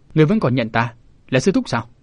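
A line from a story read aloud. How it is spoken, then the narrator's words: Angry snort. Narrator (Vietnamese): Hồ Diện Đầu Đà hừ một tiếng, giận dữ nói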